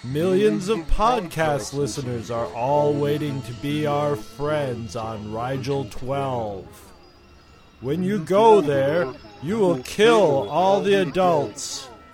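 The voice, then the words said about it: Villainous alien king character voice. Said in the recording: “that was my impression of the evil outer space Burger King”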